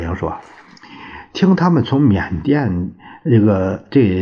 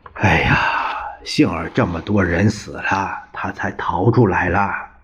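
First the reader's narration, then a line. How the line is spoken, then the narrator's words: Compassionate sigh. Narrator (Chinese): 孔祥熙悲天悯人的叹了一声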